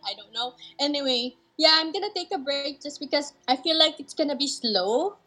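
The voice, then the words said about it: Asian-accented English. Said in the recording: “I'm also Asian ... I guess you can hear it from my accent.”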